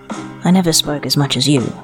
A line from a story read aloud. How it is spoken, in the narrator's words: he said quietly, by way of apology